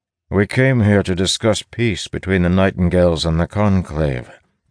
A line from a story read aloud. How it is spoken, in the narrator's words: Del replies evenly